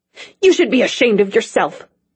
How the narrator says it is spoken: he said angrily

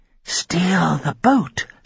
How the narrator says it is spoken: she whispered

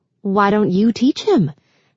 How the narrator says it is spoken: had laughed off the absurd suggestion

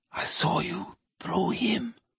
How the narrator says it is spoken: Tonino whispered

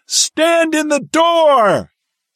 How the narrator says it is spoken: Willits yelled to Lieutenant Hennessy

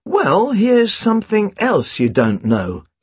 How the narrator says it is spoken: he drawled

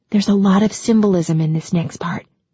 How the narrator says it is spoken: Hannah whispered at one point

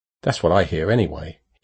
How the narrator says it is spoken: he added quickly

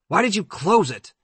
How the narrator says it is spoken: Eddie yelled

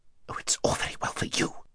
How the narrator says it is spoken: whispered Aravis rather savagely

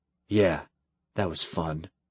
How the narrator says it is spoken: Kyle muttered

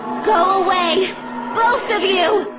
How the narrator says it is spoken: I roared

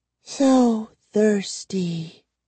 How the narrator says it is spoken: Gwendolyn murmured, licking her dry lips

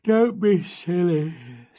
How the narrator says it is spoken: said her father sleepily

